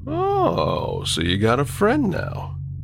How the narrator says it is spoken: asked playfully

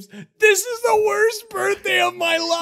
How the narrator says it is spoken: he screams

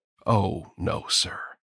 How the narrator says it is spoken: she said gravely

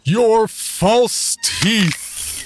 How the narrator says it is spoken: boomed loud enough for the whole room to hear

